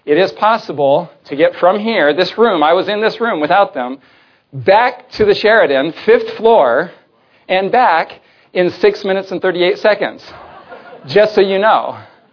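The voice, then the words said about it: Out of breath, panting. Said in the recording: “So that's why I'm out of breath”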